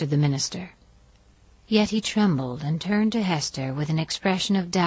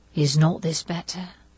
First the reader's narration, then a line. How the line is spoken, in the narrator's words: murmured he